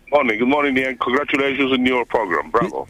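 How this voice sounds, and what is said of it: Sounds like a South African accent. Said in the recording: “What do you think about the accent? ... I'm such a good accent, South African accent. ... Better than yours.”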